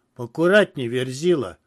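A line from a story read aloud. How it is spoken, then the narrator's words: Sharp shout. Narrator (Russian): прикрикнул на меня Адам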